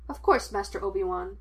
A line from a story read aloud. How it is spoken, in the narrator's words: the droid replied, and continued to prattle on in that cheerfully whiny way he had